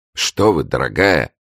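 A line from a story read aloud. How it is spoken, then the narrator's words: Exclaimed. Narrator (Russian): воскликнул Маликорн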